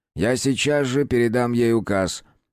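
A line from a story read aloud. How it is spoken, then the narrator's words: Gloomy. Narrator (Russian): мрачно ответил инквизитор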